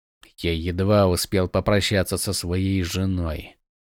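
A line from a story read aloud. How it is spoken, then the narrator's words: Grumbling. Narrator (Russian): проворчал Ронин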